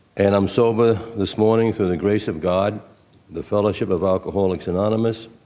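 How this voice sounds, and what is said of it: South Brooklyn accent. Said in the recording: “I got a southern accent. Actually, it's South Brooklyn.”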